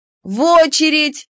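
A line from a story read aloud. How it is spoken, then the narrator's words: Crowd yelling in unison. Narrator (Russian): дружно вопила очередь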